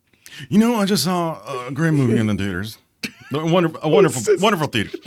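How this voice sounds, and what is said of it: Poor imitation of another person's voice. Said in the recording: “The worst Trump impression I ever saw in my life.”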